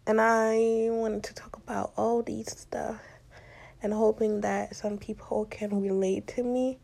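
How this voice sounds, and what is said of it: Non-native foreign accent. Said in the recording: “coming from another country and having an accent ... I am kind of scared because of my accent ... you don't mind my accent”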